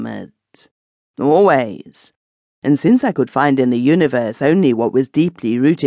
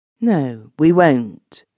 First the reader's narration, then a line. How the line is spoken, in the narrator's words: she said, in a neutral tone which concealed perfectly her relief, or her disappointment